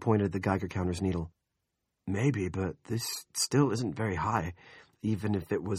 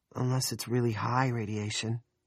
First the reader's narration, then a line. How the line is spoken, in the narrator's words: Nori said uneasily